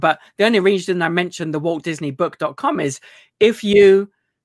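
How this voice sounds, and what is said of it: British accent, slightly Americanized. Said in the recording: “You can understand a British accent ... you've become a little more Americanized, maybe”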